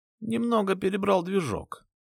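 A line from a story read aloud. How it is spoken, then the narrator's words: Sad voice. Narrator (Russian): сказал он грустным голосом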